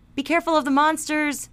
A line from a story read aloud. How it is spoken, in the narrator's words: Bean shouted